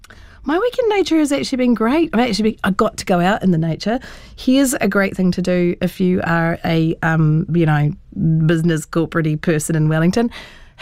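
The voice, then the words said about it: Husky, rough voice. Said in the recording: “How's the husky voice? It sounds like I've been down the dairy and bought a bloody packet of Winnie Reds. It's terrible... I sound terrible.”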